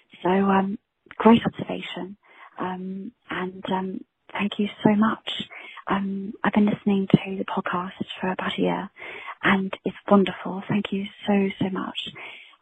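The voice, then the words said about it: Authentic non-American accent. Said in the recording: “You have an authentic accent. ... You have a beautiful accent. ... I think your accent's way cooler.”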